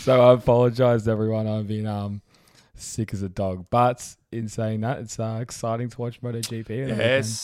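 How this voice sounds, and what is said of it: Hoarse, husky voice from illness. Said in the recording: “I apologize to everyone for my voice... I do have a bit of a sexy voice going on right now... it's sort of on the edge there”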